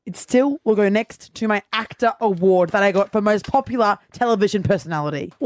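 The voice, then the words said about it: Yelling, loud angry delivery. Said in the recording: “Why are you yelling at me?”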